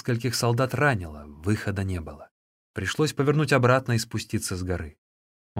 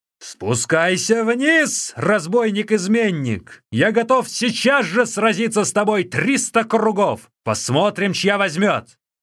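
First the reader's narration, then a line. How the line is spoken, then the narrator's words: Angry shout. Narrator (Russian): Циньмин гневно крикнул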